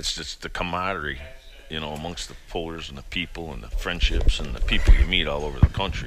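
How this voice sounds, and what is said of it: Slight New York accent. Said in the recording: “A New York accent there, huh? ... Yeah, a little bit.”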